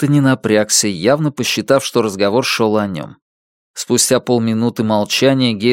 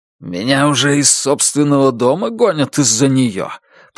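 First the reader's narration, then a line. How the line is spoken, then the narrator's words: Hissing. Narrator (Russian): прошипел Энтони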